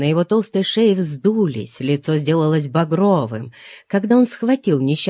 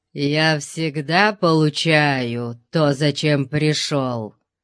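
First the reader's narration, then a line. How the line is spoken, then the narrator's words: Growl. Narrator (Russian): прорычал охранник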